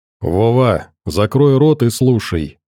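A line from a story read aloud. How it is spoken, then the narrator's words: Calm reply. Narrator (Russian): спокойно отвечал толстяк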